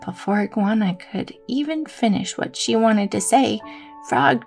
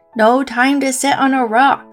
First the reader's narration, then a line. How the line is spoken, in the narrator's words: Frog yelled back